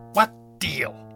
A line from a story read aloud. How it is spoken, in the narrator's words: hissed Sabian